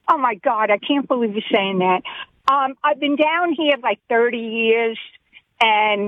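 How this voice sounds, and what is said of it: New York accent with Southern flair. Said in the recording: “You have a Mississippi accent. You have a Southern accent. ... I think you have a New York accent. ... It's New York with a little bit of Southern flair to it. You have a very interesting accent.”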